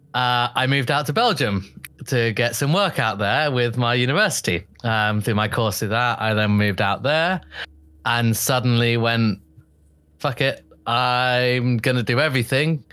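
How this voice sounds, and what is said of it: Speaks with a noticeable accent. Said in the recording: “as you can tell from my accent”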